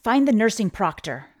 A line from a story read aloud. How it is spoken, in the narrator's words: say urgently